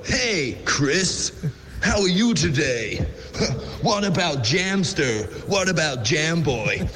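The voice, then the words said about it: Imitates a voiceover guy's voice. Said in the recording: “somebody trying to do an impression of Paul Turner ... our voice ... Guy”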